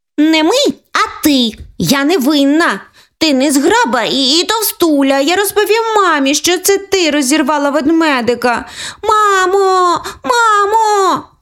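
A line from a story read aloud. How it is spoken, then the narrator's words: Shouting. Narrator (Ukrainian): закричала Оленка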